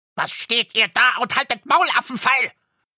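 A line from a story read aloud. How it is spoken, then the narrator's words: Furious dwarf shouting. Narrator (German): schrie der Zwerg, und sein aschgraues Gesicht war zinnoberrot vor Zorn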